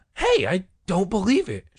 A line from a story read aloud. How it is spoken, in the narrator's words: Sherry cried